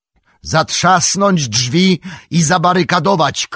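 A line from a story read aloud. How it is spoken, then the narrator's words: Shouted. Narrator (Polish): krzyknął Aragorn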